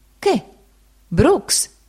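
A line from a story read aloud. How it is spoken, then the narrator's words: Exclaimed. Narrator (Italian): il signore esclamò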